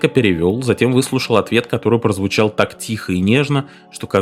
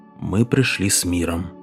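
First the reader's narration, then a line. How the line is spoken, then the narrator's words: Fairly quiet speech. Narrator (Russian): Мартин довольно тихо сказал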